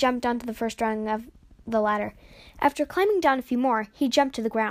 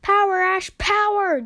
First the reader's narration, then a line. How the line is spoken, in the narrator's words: Jax yelled as they strained to lift it